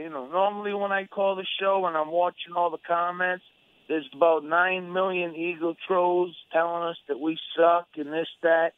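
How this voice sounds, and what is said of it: Slightly congested, sick-sounding voice. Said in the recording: “I have a little bit of a cold”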